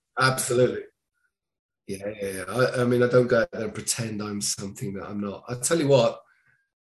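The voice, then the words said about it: Posh southern British accent. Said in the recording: “I was raised in the south of the UK, which means I have a kind of a nice posh British accent”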